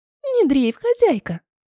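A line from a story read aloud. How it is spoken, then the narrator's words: Squeaked. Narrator (Russian): пискнула Ванилька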